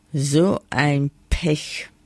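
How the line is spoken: Plain. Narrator (German): sagte ein Mann

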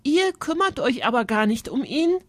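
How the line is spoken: Calling out. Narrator (German): rief Alexa

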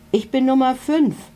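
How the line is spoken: Called out. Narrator (German): ruft einer

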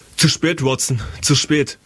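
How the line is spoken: Shout. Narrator (German): rief Holmes

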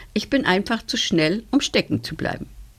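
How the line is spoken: Calling out. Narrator (German): rief

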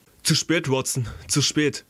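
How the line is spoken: Calling out. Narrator (German): rief Holmes

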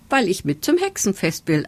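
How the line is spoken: Plain. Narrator (German): antwortete Fegerlein

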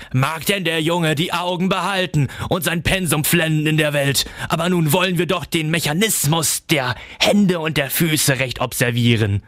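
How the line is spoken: Shrill laugh, calling. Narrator (German): Coppelius lachte grell auf und rief

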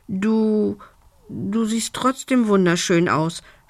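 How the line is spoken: Embarrassed stammer. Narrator (German): stotterte Lumbi verlegen

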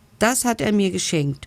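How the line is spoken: Calling out, laughing. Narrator (German): ruft Hektor lachend

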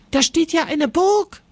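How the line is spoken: Called out. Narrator (German): ruft Jonas

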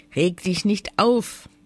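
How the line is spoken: Plain. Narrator (German): sagte die Drossel

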